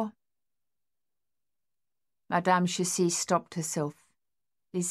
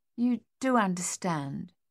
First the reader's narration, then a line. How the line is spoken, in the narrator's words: she said more gently